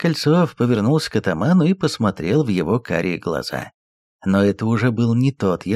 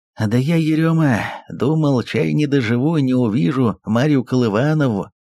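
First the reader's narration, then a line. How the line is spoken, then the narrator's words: Forlorn exhale. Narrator (Russian): Сиротливо выдохнул Кольцов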